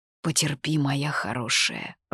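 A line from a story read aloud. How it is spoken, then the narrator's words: Mumble. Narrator (Russian): пробормотал он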